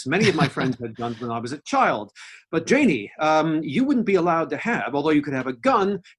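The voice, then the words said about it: American accent. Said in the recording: “you can tell from my accent that I don't come from England. I'm foreign, I'm American.”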